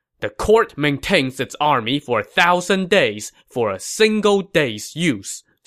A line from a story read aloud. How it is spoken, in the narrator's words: Sima Yi said sternly